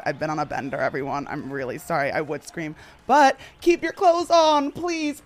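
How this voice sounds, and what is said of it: Hoarse, worn-out voice. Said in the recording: “I would scream and say, but my voice is actually shot ... Can someone else scream for me?”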